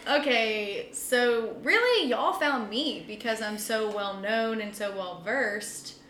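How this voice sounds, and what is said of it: Noticeable regional accent. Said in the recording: “can y'all edit out my accent? ... You have an accent?”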